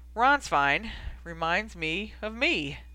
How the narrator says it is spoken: Sirius answered with a harsh laugh

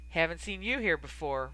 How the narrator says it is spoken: Ron finally said, his tone deceptively casual

